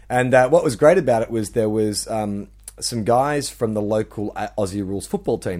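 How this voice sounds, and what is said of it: Australian accent. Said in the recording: “when they heard my accent ... In Australia”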